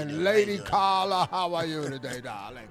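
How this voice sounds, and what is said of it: Thick put-on English accent. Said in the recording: “You know that thick English accent.”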